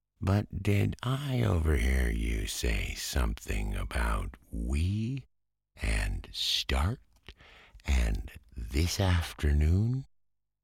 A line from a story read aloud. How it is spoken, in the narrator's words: said the Rat slowly as he chewed a straw